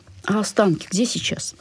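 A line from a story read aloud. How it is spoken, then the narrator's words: Hoarse question. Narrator (Russian): хрипло спросила Ксюша Колесникова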